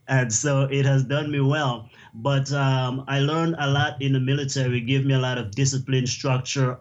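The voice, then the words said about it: Caribbean accent. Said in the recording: “I came from the Caribbean. Many people might tell by my accent,”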